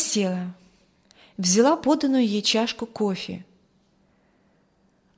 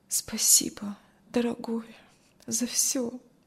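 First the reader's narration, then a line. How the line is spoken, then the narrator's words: Barely audible. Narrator (Russian): Кристи еле слышно сказала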